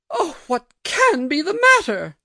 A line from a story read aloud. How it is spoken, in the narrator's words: exclaimed my aunt, shrinking from me